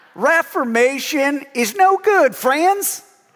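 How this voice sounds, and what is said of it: Imitated Southern drawl. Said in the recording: “he has this southern ... I love his southern draw ... I was going to do an impersonation, but I'm not very good at it ... It sounded like Ross Perot”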